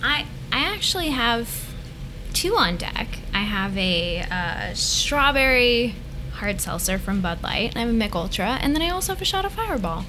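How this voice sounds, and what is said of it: Excited customer service voice. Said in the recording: “It's my customer service voice ... It's the 50 Shades voice ... I get excited”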